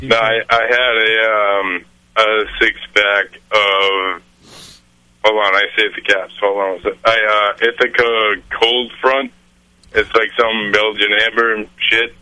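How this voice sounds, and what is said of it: Strong Northeastern US accent, dropped R's. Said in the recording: “Did the East Coast just come out of him ... I'm from the Northeast. I don't pronounce my R's ... Suddenly you're like stereotypical East Coast guy ... Doesn't pronounce his R's”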